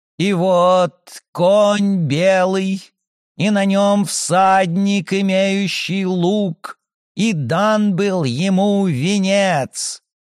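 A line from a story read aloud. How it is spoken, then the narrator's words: Chanting, mimicking a priest. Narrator (Russian): нараспев, подражая священнику, произнесла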